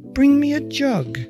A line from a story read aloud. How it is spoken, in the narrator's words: the stream answered